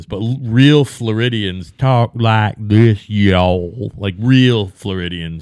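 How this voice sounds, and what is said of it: Put-on Southern accent. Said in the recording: “there's Southern shit ... The further south you go, the less southern the accent is”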